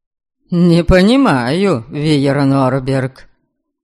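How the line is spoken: Loud contemptuous father. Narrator (Russian): Громко проговорил отец и презрительно хмыкнул

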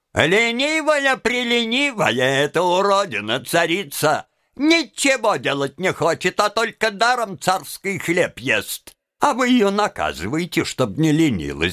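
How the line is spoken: Shouting in unison. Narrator (Russian): поварихи и повара кричали в один голос

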